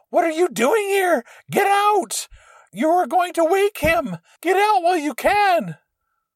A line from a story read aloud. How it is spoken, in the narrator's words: a woman covered in blood screaming